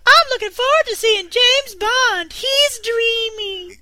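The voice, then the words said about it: Put-on girlish voice. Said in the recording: “Do it in your girl voice.”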